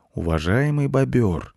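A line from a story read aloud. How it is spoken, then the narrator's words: Soft question. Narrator (Russian): мягко спросил Майкл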